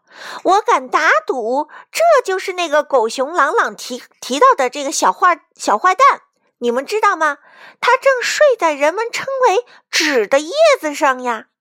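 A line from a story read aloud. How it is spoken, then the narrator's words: Shout. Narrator (Chinese): 卡门喊道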